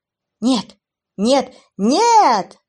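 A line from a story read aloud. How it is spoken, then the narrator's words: Shout. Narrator (Russian): закричал Джейс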